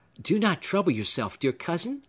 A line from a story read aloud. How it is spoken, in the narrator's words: cried Phoebe